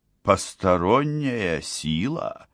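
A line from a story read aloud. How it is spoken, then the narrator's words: Calm question. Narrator (Russian): спросила эрцгерцогиня, спокойно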